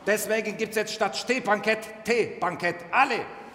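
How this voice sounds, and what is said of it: Put-on Turkish accent in German. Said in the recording (German): “mit türkischer Akzent ist authentischer”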